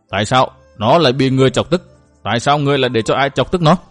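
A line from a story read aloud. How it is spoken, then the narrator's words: Woman, calm but harsh. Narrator (Vietnamese): bà rất bình tĩnh hỏi Mai Nương với một giọng gắt gao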